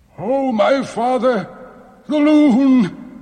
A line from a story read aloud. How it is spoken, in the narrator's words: he cried